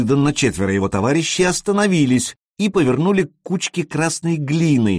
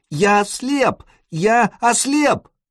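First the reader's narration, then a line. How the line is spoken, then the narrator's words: Beaten boy screaming. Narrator (Russian): Побитый мальчишка кричал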